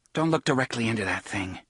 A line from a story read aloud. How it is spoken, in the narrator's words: Cuthbert muttered to Alan